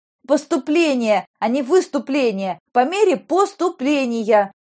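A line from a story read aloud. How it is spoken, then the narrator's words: Unrestrained shout. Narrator (Russian): выкрикнула, уже не сдерживаясь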